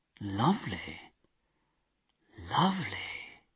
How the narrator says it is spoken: said softly

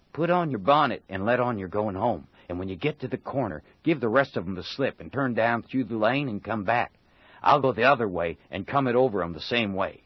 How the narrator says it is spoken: Tom whispered in her ear

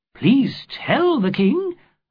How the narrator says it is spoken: answered warmly

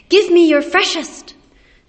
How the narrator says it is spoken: customers cried out their orders and shouted

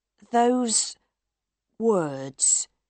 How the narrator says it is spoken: Monsieur Firmin said slowly

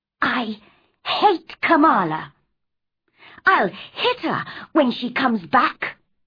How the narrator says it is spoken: she was saying crossly to herself

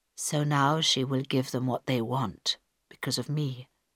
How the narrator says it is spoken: said Carl quietly

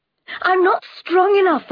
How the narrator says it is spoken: I cried

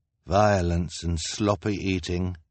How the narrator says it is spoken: the man said and sighed

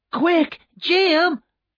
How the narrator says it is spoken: cried

